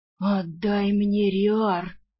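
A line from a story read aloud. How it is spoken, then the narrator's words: Rude growl. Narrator (Russian): Куда менее любезно прорычал мужик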